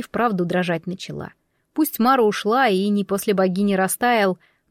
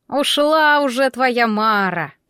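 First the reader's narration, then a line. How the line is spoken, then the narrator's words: Wheezy hiss, old witch. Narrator (Russian): просипела Яга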